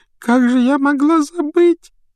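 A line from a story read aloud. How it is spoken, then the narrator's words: Sobbing self-reproach. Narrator (Russian): всхлипывая, корила себя Лаванда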